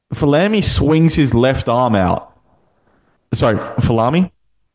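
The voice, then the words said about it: Northeast US accent. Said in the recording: “Why are you talking with an accent? ... you actually sound like you're talking with like a northeast US accent”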